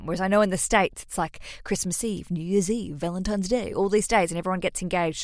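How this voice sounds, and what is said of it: Australian accent. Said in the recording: “the Australians ... If you hear my accent, that's where I'm from”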